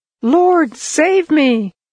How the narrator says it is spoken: Peter cried out

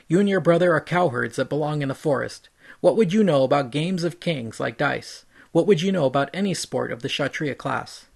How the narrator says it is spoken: Balram finally lost his temper

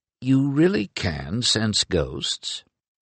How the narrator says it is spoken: he murmured

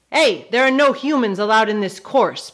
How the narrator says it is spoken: barked

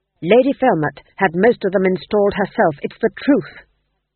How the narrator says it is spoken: said the king desperately

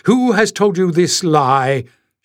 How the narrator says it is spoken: she thundered, looking down at Jasmine angrily

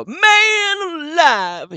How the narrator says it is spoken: he yells

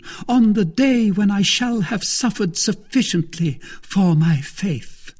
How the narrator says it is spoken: cried Milady, with a feigned exultation

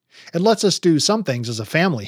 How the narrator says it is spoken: he said

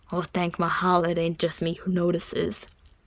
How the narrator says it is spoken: Nori muttered

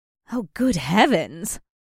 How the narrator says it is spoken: she muttered

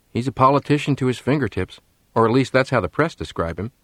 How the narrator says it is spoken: said Jimmy

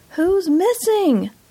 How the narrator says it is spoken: I shouted

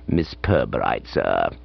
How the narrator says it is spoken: added in an undertone

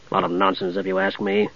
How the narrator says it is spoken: he grumbled to Steele

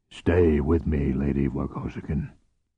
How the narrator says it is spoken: Bothari murmured to Cordelia

